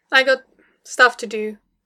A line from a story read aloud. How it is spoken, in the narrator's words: Tony said stiffly